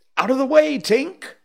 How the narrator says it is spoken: he shouted

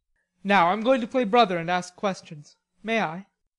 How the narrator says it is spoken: Laurie say gravely

